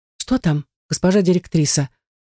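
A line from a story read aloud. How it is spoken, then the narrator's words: Frightened curious question. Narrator (Russian): спрашивает испуганно любопытная дежурная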